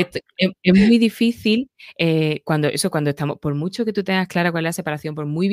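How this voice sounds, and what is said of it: Usual voice. Nothing is said of it.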